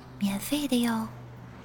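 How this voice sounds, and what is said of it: Quiet, hushed voice. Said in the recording (Chinese): “乘务员小声补充”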